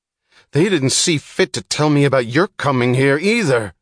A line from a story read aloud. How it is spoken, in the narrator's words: yelled the chief, his voice confessing the helplessness of anger and broadcasting the vibrations of impotence to his men